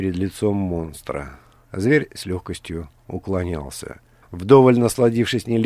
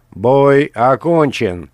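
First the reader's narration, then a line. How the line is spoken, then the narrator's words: Host shouting. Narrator (Russian): прокричал ведущий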